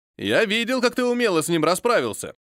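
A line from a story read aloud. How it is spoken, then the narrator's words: Joyful shout. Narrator (Russian): радостно крикнул дозорный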